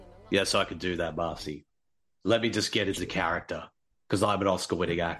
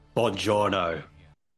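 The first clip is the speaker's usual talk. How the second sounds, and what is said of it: Put-on Italian accent. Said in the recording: “your Italian accent from The Pope's Exorcist”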